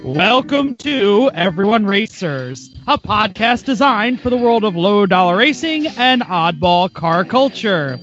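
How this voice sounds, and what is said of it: Announcer-style stage intro voice. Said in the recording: “I'll do my stage intro voice. ... Can't speak in this voice.”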